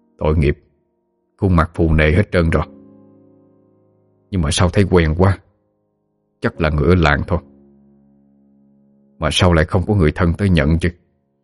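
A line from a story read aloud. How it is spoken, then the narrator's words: Muttering to himself. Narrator (Vietnamese): Ông lầm bầm với chính mình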